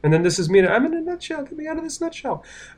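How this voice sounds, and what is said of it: Comic voice of someone trapped. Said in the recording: “That was a good impression. See, that was a good impression you just did of yourself in a nutshell.”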